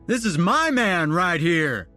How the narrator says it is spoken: hollered to the crowd

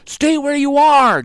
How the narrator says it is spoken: Jack shouted

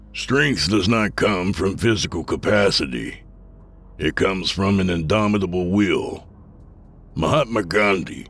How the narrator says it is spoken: an older man said in a grandfatherly tone

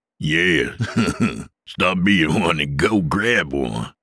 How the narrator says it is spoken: Dale laughed

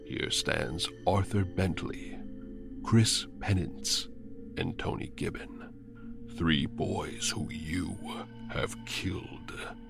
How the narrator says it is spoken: says the raspy voice

